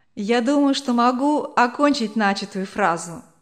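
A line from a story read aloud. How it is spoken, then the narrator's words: Plain. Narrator (Russian): сказала жена Вандербума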